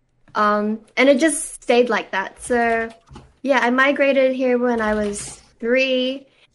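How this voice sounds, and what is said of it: Blended Filipino-Australian accent. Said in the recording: “my accent is like not fully Filipino, but not fully Australian... kind of blended”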